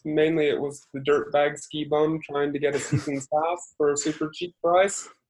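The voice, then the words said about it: Scandinavian-sounding accent. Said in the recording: “you have an accent. ... I was wondering if you are originally Scandinavian”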